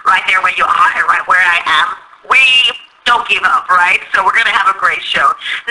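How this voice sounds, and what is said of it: Speaker with a noticeable accent. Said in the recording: “I know I have an accent, but I love it.”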